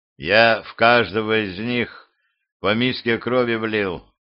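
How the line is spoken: Weary sigh. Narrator (Russian): устало вздохнул Тирц

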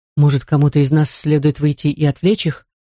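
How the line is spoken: Plain. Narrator (Russian): спросил

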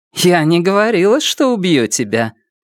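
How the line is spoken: Dry smirk. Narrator (Russian): Она, сухо усмехнувшись, сказала

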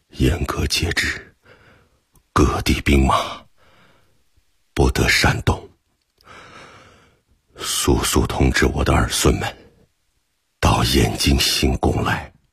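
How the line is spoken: Gasping, breathless. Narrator (Chinese): 窝阔台气喘吁吁道

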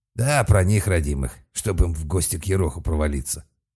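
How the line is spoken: Grumble. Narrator (Russian): проворчал Серж

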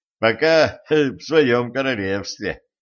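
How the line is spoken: Laughing. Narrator (Russian): засмеялся стажер

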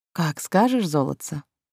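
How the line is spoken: Tender caressing voice. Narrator (Russian): нежно погладил меня голосом блондин

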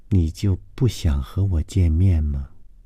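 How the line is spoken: Feminine voice. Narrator (Chinese): 高伟的声音极富女人味说

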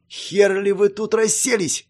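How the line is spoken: Barked. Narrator (Russian): рявкнула она

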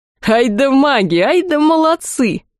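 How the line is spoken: Crew roaring with laughter. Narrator (Russian): хохотали члены экипажа

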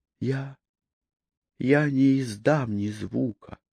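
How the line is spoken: Terrified mumble. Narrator (Russian): пробормотала она, плохо соображая от ужаса

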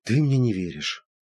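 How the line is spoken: Sighed. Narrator (Russian): вздохнула Евгения

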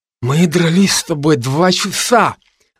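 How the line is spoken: Lisping through broken mouth. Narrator (Russian): прошепелявил разбитым ртом Илья

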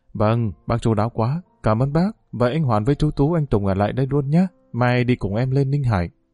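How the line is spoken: Smiling voice. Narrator (Vietnamese): Vượng mỉm cười

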